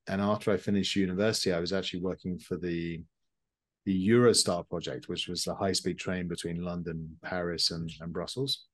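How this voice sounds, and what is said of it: British accent. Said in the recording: “as you can tell from my accent, I'm not originally from Canada. I'm actually from the UK.”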